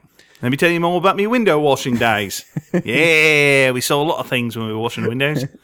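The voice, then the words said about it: Thick Cockney accent, imitating Ben Wicks. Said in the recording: “a thick Cockney accent ... A thick Cockney Ben Icks”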